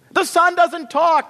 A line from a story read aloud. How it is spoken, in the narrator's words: shrieked the sisters